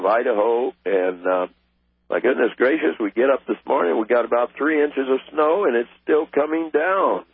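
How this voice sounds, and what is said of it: Voice sounds off, throaty. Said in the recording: “my voice is sounding a little funny this morning ... that problem with my throat come back to me, and the cough”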